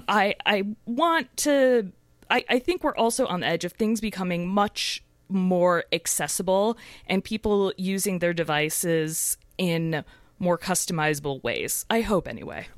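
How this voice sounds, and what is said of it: Hoarse, strained voice. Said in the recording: “my voice is a little broken”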